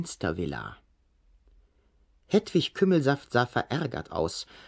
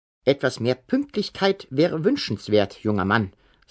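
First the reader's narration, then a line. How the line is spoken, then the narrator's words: Plain. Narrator (German): sagte sie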